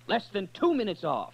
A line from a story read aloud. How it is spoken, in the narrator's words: Lancelot cried out